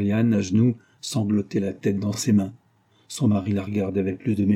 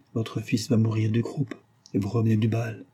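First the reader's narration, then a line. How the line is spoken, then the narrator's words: Low voice. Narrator (French): dit Dournoff à voix basse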